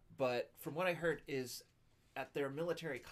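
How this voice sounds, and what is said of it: Usual voice. Nothing is said of it.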